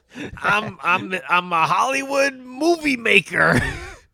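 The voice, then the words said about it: Imitates another person's voice. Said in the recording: “impersonates ... So you're doing the impression of Kevbot's impression?”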